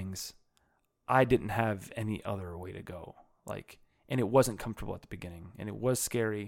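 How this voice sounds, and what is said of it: Usual voice. Nothing is said of it.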